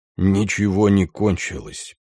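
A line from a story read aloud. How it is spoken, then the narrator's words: Muttering. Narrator (Russian): пробормотал Ганс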